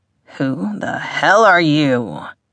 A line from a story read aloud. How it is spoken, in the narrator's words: he growled